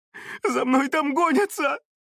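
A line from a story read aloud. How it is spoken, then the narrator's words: Sobbing plea for pity. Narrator (Russian): Зарыдала она в надежде на жалость незнакомого человека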